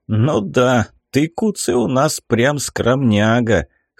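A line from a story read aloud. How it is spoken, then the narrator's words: Cheerful snort. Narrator (Russian): хмыкнул, продолжая радоваться невероятно удачному утру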